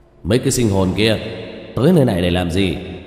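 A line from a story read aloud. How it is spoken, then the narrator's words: Cold shout. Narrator (Vietnamese): Tên cầm đầu lạnh giọng quát lên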